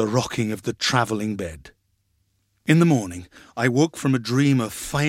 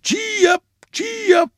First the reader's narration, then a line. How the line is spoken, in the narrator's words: his voice crying loudly and gaily